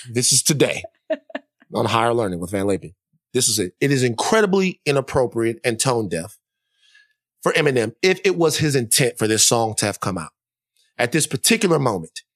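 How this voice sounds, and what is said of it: Imitates another person's voice. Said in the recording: “let me calm down... Let me talk regularly. Let me put it on... let me put on the Bryant Gumbel”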